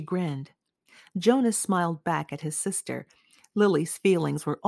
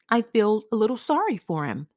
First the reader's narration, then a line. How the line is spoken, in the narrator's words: Jonas said